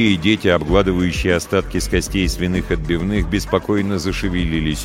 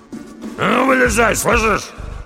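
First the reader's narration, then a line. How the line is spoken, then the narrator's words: Growling. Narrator (Russian): прорычал Доди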